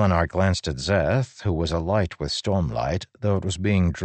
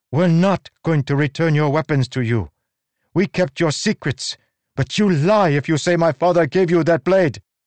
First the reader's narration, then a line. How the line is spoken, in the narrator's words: Zeth shouted